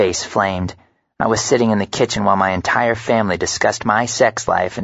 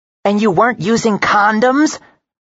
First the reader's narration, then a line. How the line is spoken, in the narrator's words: Bryn yelled